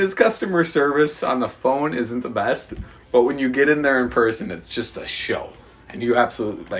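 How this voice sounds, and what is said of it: Usual voice. Nothing is said of it.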